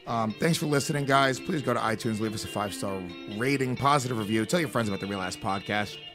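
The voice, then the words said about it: Low-energy, rough tired voice. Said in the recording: “Sorry that I'm low energy and my voice is all fucked up... Oh, I'm tired.”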